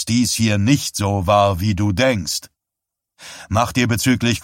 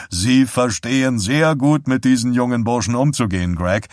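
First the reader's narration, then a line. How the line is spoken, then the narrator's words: Plain. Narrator (German): sagte er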